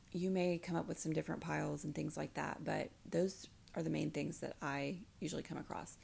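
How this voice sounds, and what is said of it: Raspy, crackly voice. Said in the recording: “sorry about my voice today, guys... see if it stops being so raspy or crackly”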